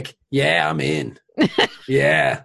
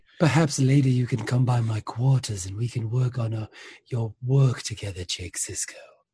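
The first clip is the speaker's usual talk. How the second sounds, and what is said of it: Creepy whispered character voice. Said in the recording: “It was that whisper voice. ... It was creepy as shit. ... Very creepy”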